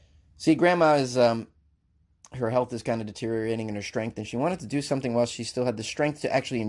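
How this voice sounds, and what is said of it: Usual voice. Nothing is said of it.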